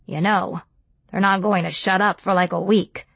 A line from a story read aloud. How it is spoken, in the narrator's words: Uncle Mike snorted and said